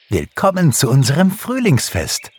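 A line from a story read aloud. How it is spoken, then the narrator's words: Called out. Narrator (German): rief Pixie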